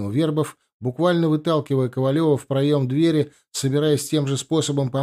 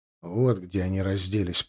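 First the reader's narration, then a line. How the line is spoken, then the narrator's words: Muttering. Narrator (Russian): пробормотал он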